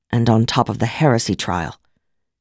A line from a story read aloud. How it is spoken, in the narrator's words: Kirsten said in a solemn tone